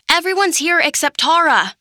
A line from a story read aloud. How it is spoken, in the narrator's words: tried to shout, but my face was wedged under the seat, my cheek pressed to the floor